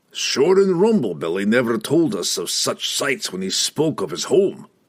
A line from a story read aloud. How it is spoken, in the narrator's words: Brunner grumbled, pulling his cloak over his face to deflect the awful stench